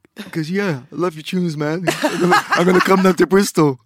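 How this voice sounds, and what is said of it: Impression of Brian G. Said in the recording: “my Brian G impression ... Right, that's quite good.”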